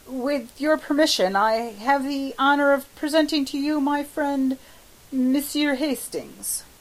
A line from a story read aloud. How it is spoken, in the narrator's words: Clifford, very red, stammered